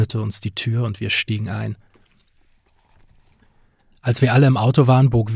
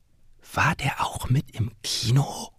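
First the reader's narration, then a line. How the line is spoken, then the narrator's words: Whispering. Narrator (German): flüsterte Jasmin mir zu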